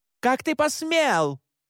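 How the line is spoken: Shouted. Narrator (Russian): крикнула она

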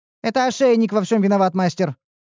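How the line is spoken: Rapid chatter. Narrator (Russian): затараторила Ниуру

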